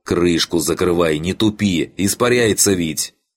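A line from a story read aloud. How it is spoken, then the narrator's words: Wild yell. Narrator (Russian): он заорал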